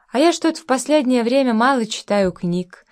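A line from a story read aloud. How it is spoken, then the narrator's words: Sad, sighing. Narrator (Russian): со вздохом сказал Степа грустно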